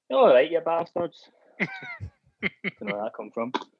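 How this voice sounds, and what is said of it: Put-on angry Scottish accent. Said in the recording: “I feel like you might be a bit Scottish, mate. Either that, or it's a good impression ... You're actually really Scottish, angry Scots.”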